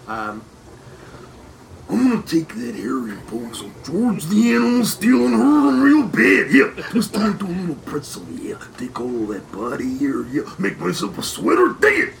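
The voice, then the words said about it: Imitates another person's voice. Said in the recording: “your Macho Man impression ... Can you give us a little Macho Man?”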